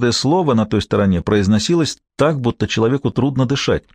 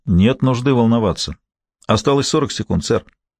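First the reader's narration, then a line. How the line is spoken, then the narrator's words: Calm, running, into microphone. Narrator (Russian): на бегу спокойно говорил в микрофон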